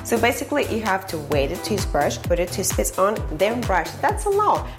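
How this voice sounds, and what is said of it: Russian accent. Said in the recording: “She has like a Russian accent.”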